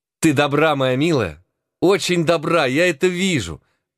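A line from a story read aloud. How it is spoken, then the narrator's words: Enthusiastic exclamation. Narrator (Russian): воскликнула с воодушевлением индианка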